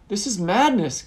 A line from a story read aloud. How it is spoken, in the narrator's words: Gamdan cried